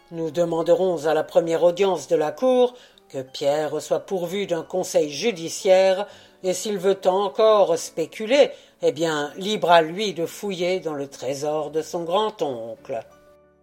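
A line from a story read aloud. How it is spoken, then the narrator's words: Grumbling. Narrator (French): grommela Monsieur Brown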